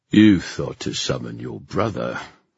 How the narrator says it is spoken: the king sneered

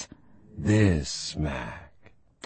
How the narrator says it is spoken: the Shisadu purrs

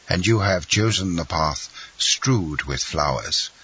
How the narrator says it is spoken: observed the Comte de Morcerf with a sigh

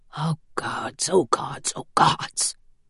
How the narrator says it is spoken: he whispered to himself

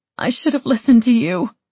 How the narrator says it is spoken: I said, my voice hoarse from crying

